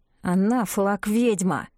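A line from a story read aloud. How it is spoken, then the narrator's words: Through gritted teeth. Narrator (Russian): сквозь зубы проговорил Оскар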